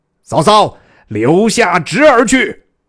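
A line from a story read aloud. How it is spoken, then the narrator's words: Loud shouting warrior. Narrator (Chinese): 一员大将高声大叫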